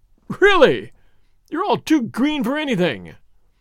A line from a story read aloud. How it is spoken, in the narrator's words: Lousseau himself looked foolish and disconcerted for a moment, but soon recovered his aplomb, and writhing with laughter, exclaimed